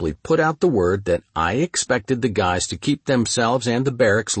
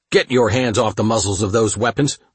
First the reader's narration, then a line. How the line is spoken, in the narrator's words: snapped